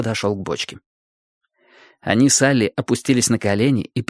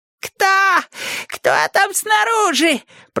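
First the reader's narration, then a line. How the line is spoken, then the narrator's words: Squeaky voice from barrel. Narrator (Russian): пропищал голос из бочки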